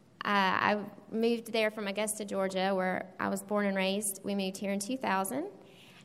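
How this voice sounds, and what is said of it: Southern Georgia accent. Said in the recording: “if you hear a southern accent, it's not from Florida. It's a Georgia thing.”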